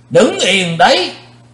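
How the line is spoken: Thunderous roar. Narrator (Vietnamese): Tiếng gầm quát này làm rung chuyển cả thạch động

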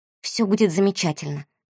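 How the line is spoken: Mutter. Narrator (Russian): пробормотала она

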